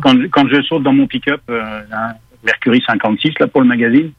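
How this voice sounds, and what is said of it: Parisian French accent. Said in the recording (French): “votre petit accent parisien”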